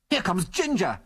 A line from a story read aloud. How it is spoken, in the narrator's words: he yelled desperately